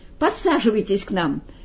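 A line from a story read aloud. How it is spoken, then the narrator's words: Cheerful invitation. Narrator (Russian): весело пригласил Эдвард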